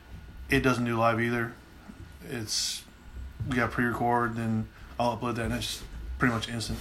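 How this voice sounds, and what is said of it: Strong Southern country accent. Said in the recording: “how much of a country-ass accent I have ... I sound like country-ass”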